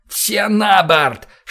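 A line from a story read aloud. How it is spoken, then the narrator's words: Shouting with all might. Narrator (Russian): что есть силы, прокричал я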